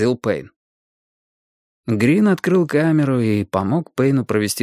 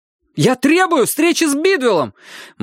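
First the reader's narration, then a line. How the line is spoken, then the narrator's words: Almost shouting. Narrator (Russian): Мэтью почти кричал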